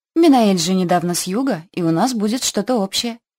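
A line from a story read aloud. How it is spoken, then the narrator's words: Purring. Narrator (Russian): промурлыкала я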